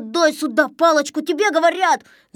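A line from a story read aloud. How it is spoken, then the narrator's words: Yelling. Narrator (Russian): заорал Незнайка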